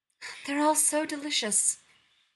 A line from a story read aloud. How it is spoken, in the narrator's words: Nero sighs theatrically